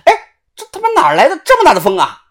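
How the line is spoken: Loud voice. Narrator (Chinese): 大声的说

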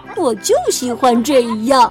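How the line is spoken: Giggling. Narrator (Chinese): 他咯咯的笑着说

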